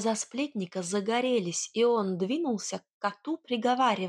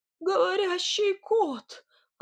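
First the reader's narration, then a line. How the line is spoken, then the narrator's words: Pleased cry after fright. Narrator (Russian): Оправившись от испуга, довольно вскрикнул Сидор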